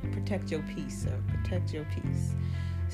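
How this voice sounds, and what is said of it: Put-on British accent. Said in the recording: “random-ass British accent”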